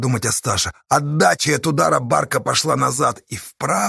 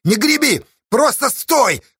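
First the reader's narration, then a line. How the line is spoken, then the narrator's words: Shout. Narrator (Russian): крикнул Асташа Корниле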